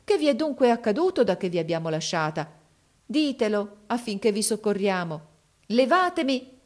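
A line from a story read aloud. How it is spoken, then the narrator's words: Exclaimed. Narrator (Italian): esclamò essa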